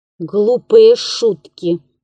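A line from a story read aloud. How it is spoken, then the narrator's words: Grumble. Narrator (Russian): проворчал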